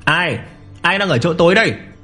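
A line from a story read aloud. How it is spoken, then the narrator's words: Loud shout. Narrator (Vietnamese): Lâm Phàm hét lớn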